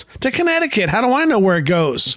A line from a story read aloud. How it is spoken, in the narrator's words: Dorothy finally loses it, yells